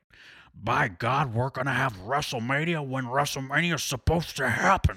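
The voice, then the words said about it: Imitates another person's voice, badly. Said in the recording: “That was a really bad impression.”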